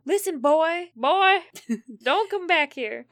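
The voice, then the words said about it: Bad impression of FP. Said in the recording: “your FP impression is just as bad as your Betty impression”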